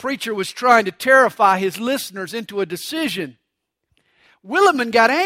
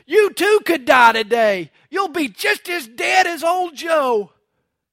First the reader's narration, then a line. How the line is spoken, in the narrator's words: He shouted